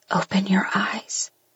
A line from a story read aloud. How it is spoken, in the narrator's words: I whisper